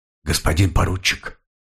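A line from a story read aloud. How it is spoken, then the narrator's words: Quiet whisper. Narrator (Russian): тихий шепот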